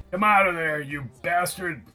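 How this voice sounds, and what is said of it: Booming yelled voice. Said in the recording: “yelled Roy in a booming voice.”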